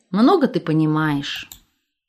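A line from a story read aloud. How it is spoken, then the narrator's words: Sighing. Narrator (Russian): вздохнув, добавляет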